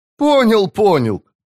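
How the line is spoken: Laughing loudly. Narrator (Russian): расхохотался Мурильо

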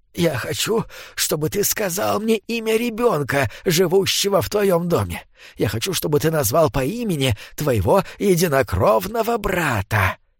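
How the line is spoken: Whisper. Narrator (Russian): Скрюченный человек зашептал

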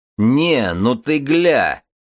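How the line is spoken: Roar, gang leader. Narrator (Russian): взревел вожак Беревсеев

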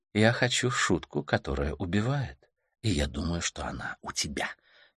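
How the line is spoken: Quiet voice. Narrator (Russian): негромко произносит она

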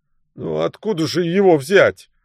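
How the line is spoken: Wailing. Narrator (Russian): взвыл Альфред

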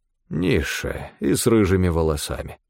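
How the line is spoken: Muttering. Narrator (Russian): пробормотал Стефан

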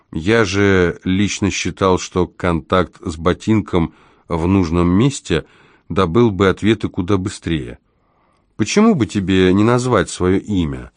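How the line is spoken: Reluctant mumble. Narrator (Russian): Крайне неохотно он, наконец, промямлил ответ

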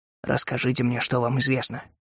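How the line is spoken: Whisper. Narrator (Russian): прошептал Кэллоуэй

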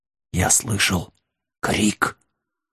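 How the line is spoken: Whispered. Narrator (Russian): прошептал Вилкинс

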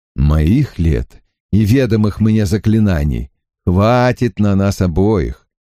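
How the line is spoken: Dry reply. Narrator (Russian): сухо откликнулся ястреб

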